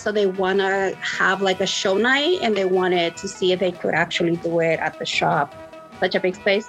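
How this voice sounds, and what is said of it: Noticeable non-native accent. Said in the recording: “I'm sorry, my accent”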